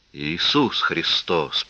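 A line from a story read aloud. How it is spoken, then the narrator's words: Whisper. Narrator (Russian): прошептал шериф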